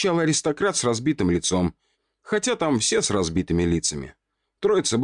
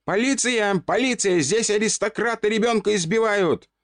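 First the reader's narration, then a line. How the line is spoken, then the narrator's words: Very loud shout. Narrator (Russian): Громко-прегромко закричал я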